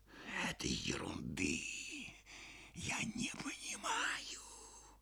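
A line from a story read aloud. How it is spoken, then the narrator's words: Muffled, hollow voice. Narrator (Russian): глухо проговорил Иван Дмитриевич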